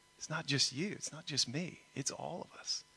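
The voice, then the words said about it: Slight Texas accent. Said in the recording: “Got a little Texas accent going on”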